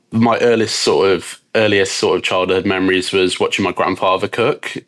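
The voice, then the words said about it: British Midlands accent. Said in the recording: “as you can probably tell from my accent, I'm from the UK. I was born just outside of Birmingham. So I'm half Scottish, half English.”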